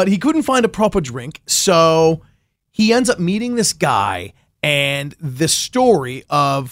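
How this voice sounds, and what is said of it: Usual voice. Nothing is said of it.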